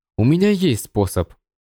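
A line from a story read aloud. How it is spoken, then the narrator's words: Cold reply. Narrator (Russian): Холодно ответил Сяо Цзинь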